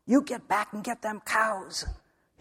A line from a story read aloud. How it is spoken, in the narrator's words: hissed Alonzo Lago